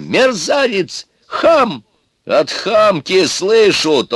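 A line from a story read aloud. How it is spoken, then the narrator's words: Yelled. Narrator (Russian): тоже заорал Иван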